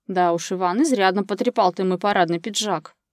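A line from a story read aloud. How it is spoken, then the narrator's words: Grumbling. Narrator (Russian): проворчал он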